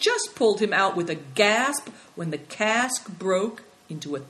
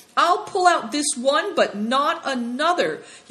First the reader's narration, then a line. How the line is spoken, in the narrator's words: Yusan cried out in desperation